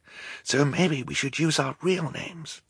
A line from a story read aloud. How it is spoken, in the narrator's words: Klaus whispered back